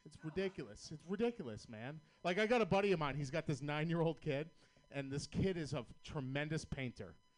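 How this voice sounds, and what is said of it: Boston accent. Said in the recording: “I'm from Boston, Massachusetts. You know how fucking hard it is to have a Boston accent”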